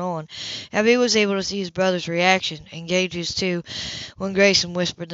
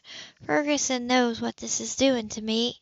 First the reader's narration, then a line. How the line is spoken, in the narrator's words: she mumbled